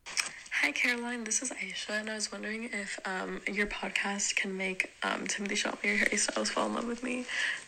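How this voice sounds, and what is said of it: American-sounding accent. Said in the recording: “She really sounds American, though ... I don't really know where that accent came from”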